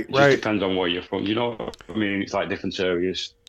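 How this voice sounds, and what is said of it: Northwest English accent. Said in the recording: “I'm from a village, mate, in northwest of England ... it's a different accent”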